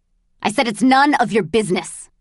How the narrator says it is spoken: he snapped

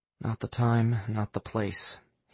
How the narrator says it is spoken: he muttered under his breath

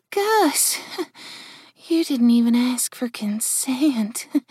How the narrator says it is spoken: she said in a husky voice

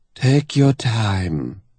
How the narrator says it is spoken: she purrs, her vocal cords syrupy with condensed tar

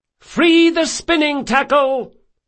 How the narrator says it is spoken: shouted Del Mastro

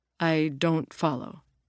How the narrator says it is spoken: Jim said

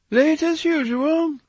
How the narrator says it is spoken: cried his aunt

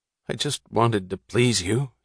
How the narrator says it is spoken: he added sullenly

